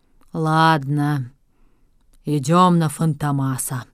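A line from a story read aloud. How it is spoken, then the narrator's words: Sighing. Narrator (Russian): вздохнул он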